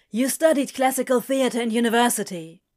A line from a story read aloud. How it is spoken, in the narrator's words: he blurted out